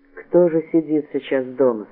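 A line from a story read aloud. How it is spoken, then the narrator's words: Plain. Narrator (Russian): спросил он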